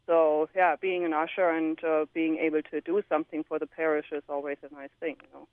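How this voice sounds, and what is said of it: Slight German accent. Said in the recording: “you come from Germany, and I think listeners can probably pick up a little bit of that with your beautiful accent”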